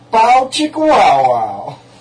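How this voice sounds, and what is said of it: Put-on hick accent. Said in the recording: “my hick accent”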